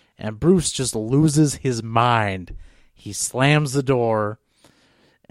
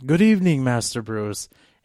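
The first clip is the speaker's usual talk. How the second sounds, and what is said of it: Very British accent. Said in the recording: “in that very British accent”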